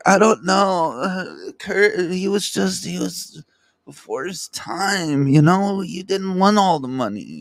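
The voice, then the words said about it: Imitates another person's voice. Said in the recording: “my little stupid impression of her. She's like, all fucked up.”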